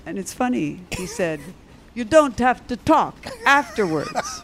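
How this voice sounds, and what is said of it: Attempted Czech accent. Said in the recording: “Try to do a Czech accent”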